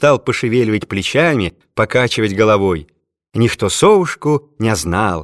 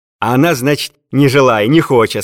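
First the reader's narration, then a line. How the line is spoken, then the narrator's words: Laughing. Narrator (Russian): сказал он, смеясь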